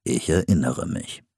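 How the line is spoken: Calm. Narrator (German): sagte ruhig

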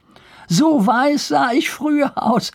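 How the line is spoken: Laughing. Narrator (German): fügte er lachend hinzu

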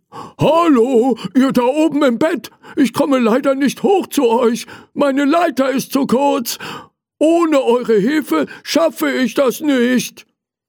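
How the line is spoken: Called out. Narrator (German): Er rief

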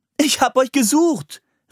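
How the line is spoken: Calling out. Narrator (German): rief sie

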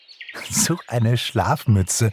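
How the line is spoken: Giggle. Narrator (German): kicherte Pixie

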